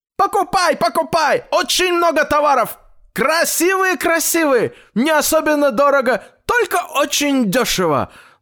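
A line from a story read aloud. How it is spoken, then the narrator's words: Loud shout right by ear. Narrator (Russian): Закричали у дедушки прямо над ухом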